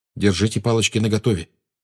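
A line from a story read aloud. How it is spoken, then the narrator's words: Quiet warning. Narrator (Russian): тихо предупредил Гарри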